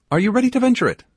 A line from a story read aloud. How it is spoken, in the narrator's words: asked, looking at me earnestly